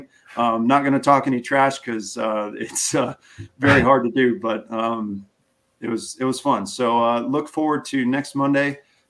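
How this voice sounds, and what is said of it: Hoarse, strained voice. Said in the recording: “I don't know why I'm losing my voice ... Nothing worse than having a dry throat.”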